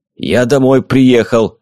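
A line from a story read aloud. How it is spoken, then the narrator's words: Angry grumbling. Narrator (Russian): злобно ворчал Флосси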